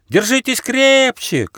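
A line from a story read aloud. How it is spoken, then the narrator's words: Shouting. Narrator (Russian): крикнул добрый дух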